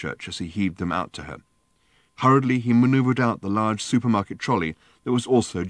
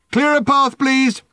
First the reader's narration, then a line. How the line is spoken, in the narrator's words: shouted Ford again